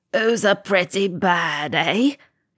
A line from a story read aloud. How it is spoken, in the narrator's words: cackled